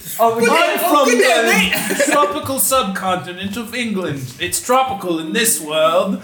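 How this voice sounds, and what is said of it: Deliberately bad Cockney British accent. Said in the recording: “We're gonna do a bad British accent for them... Cockney.”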